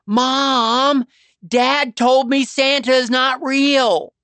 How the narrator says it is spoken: Bryce burst into tears, screaming

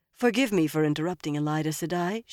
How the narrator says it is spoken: she said smoothly

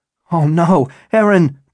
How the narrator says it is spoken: Bennett shouted

